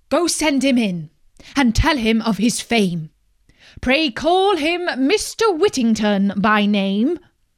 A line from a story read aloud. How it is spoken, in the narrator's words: he called out to his servant